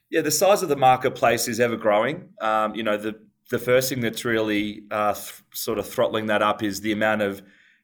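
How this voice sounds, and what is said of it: Softened Australian accent. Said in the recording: “our Australian and New York accents ... the really thick Australian part of my accent is somewhat tempered off”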